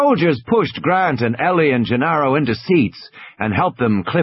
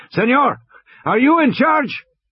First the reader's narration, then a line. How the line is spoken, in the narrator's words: shouted